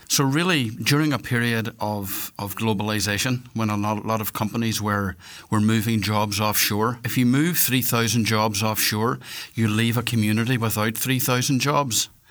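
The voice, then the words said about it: Northwest Irish accent. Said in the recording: “You probably can hear from my accent that I'm from the northwest of Ireland.”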